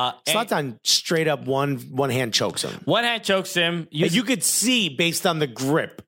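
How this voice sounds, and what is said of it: Usual voice. Nothing is said of it.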